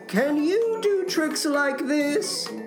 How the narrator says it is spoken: cried Toad

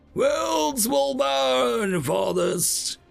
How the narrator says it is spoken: chuckled

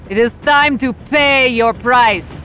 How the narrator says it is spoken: yell

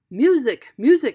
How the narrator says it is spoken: shouted the emperor

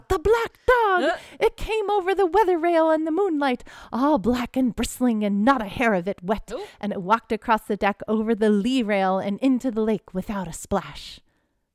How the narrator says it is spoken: He blurted out

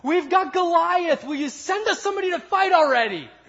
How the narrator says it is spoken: yell back

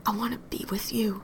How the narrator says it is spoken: she hisses

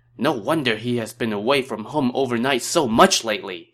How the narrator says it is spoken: she exclaimed

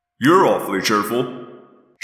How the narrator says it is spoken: Jake grumbled

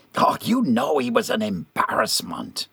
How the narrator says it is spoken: Gerard hissed

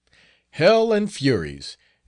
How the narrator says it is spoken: exclaimed the first

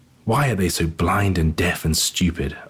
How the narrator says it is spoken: asked the junior angel rather crossly

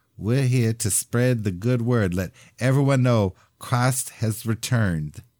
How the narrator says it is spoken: With a sweet little lisp that always made Mother smile, he said

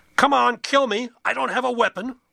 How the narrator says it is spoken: A man on the porch screamed

